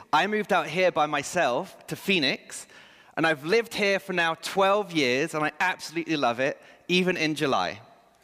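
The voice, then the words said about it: English accent. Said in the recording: “moving back to England ... if he's lived in the States for so long, how does he still have that accent?”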